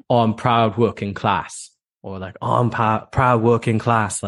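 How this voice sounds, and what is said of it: Mock British working-class accent. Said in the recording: “I'm just going to butcher their accent”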